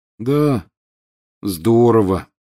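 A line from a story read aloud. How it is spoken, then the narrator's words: Glum agreement. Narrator (Russian): уныло подтвердил Рон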